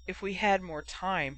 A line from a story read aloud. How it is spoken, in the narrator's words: he mumbled